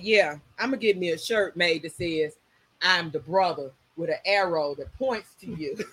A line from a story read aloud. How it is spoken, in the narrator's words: started laughing, and I was like